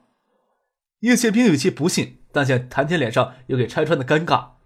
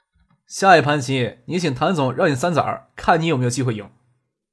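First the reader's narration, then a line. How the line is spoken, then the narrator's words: Smiling. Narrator (Chinese): 张克跟叶剑兵笑着说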